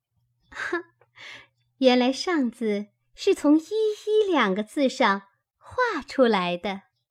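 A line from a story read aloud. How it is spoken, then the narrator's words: Admiring, laughing. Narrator (Chinese): 叹赏，笑道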